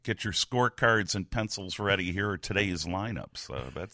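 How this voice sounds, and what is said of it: Impression of Pat Piper. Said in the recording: “that's a great impression. It almost sounds like Pat Piper.”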